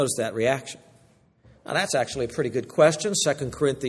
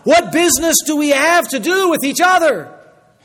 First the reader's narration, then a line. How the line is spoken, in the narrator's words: They cried out